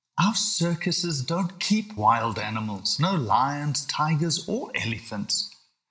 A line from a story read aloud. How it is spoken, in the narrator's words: groaned his dad